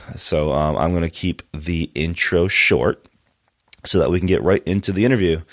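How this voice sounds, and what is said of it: Congested voice from a cold. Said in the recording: “You can probably hear from my voice that I got a little bit of a cold right now.”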